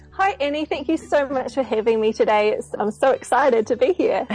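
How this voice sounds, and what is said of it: Slight New Zealand accent. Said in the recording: “I detect a little bit of an accent... I'm from Auckland here in New Zealand”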